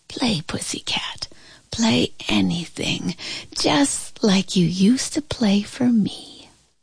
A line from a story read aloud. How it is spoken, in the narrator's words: I heard my grandma whisper